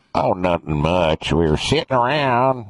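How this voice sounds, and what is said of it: Exaggerated rural Arkansas Southern accent. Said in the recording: “uneducated, ... Arkansas or something. Here's what it might sound like. ... that's my accent a little bit”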